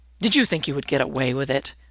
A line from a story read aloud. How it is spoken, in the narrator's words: Ennis growls